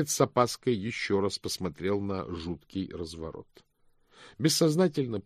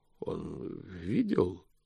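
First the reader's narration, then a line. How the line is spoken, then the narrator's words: Wheezing. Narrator (Russian): прохрипел он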